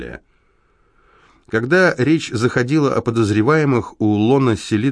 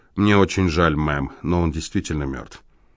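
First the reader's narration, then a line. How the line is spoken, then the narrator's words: Quiet, Brooklyn accent. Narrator (Russian): Тихим голосом с отчетливым бруклинским произношением он сказал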